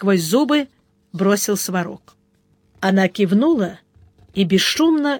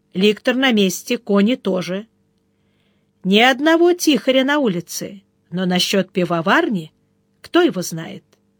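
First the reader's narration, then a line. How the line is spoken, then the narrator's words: Calm. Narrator (Russian): Сварог сказал спокойно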